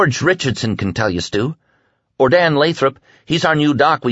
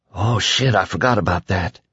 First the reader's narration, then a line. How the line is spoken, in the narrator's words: Billy whispered